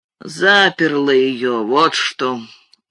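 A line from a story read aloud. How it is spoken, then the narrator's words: Sullen mutter. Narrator (Russian): угрюмо буркнул мистер Бейлс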